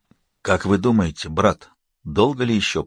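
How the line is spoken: Whispering. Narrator (Russian): прошептал

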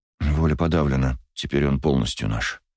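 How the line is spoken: Officer muttering. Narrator (Russian): пробормотал офицер

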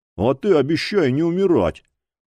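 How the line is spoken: Grumbling. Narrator (Russian): проворчал приятель

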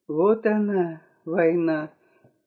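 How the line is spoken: Involuntary whisper. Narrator (Russian): невольно прошептала я

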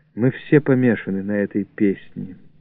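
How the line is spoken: Said quietly. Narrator (Russian): тихо сказала

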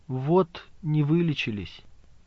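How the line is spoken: Quiet answer. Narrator (Russian): она тихо ответила

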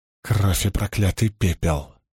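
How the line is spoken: Breathed exclamation. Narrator (Russian): выдохнул Мэтт

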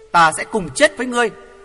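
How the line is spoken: Loud shout. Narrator (Vietnamese): Hoàng Thượng Chí hét lớn

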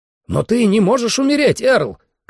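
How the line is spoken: Shouted. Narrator (Russian): крикнул

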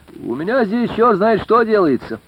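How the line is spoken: Cheerful. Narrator (Russian): сказал весело

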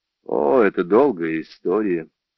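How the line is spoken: Weary. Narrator (Russian): устало произнес Джордж

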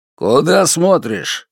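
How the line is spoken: Barked order. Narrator (Russian): рявкнул конвоир

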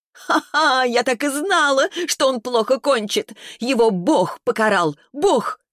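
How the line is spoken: Laughing, shouting. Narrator (Russian): Смеялась и кричала, разумеется, Вера

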